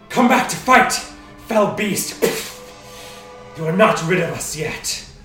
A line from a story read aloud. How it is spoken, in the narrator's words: she speaks, the booming voice